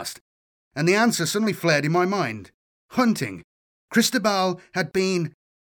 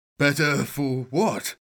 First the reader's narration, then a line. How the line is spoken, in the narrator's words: mumbled